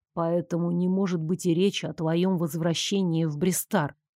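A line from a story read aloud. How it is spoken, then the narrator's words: Quiet conclusion. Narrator (Russian): тихо завершил Нико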